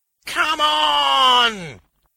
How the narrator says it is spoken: he howled

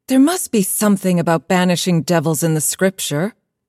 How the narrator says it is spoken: said

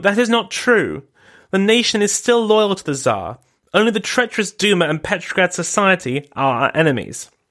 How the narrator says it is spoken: She exclaimed

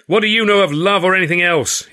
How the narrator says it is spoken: he screamed, losing his temper completely

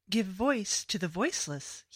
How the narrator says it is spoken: he said

